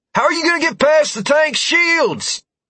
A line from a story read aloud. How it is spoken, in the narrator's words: Morris called out